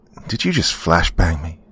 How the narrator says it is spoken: I asked shakily

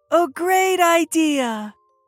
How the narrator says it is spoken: she shouted

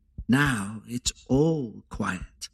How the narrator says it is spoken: smiled and said

